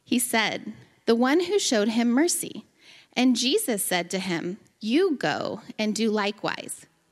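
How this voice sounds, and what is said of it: Speaks with an accent. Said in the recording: “Your accent is my favorite.”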